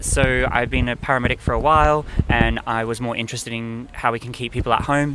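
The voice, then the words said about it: Australian-sounding accent. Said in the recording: “I wonder where the accent came from”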